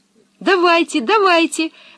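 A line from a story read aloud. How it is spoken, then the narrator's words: Joyful exclamation. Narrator (Russian): воскликнула Анника, все больше радуясь тому, что вернулась домой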